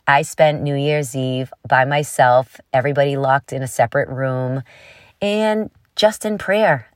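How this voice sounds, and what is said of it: Congested, head-cold voice. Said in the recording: “The symptoms were pretty mild, more head cold. You can probably hear it in my voice.”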